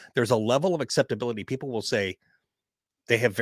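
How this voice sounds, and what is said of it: Usual voice. Nothing is said of it.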